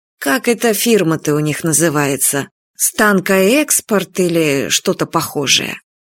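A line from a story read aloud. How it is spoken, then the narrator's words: Quiet, unobtrusive telling. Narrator (Russian): Кира Сергеевна негромко и ненавязчиво рассказывала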